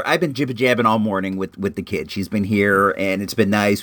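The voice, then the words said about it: Hoarse, strained, worn-out voice. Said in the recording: “my voice just went out there ... my voice is blown”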